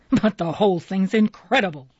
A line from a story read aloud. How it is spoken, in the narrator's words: Sir Thomas Legge, assistant commissioner at Scotland Yard, said irritably